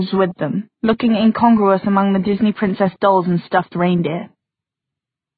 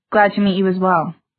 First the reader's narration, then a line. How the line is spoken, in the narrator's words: Maya said stiffly